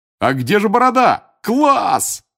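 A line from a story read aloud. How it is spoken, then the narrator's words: Roaring. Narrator (Russian): взревел Джордж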